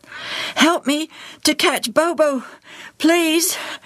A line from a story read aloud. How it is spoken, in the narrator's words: Joel panted